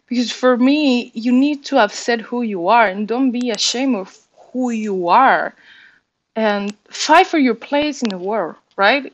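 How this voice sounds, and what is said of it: Spanish-accented English. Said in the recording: “the language, Spanish, and it comes with the accent that you have from the language that you learned when you were little ... I started to speak with my accent”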